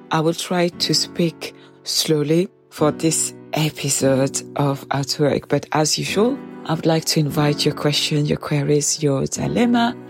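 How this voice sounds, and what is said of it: Stuffy, congested voice. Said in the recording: “I will be your host with a cold ... my voice is a little bit funny because I am a little bit stuffy ... I hope I don't sound too odd”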